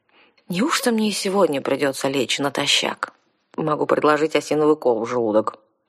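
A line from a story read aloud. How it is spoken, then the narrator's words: Muttering mercenary. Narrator (Russian): пробормотала наемница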